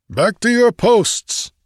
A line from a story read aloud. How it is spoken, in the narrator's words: yelled